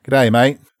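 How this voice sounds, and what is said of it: Australian accent with heavy twang. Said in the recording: “the strongest Australian accent ... There's a little bit too much what I would call twang ... that Steve Irwin in the back of my head”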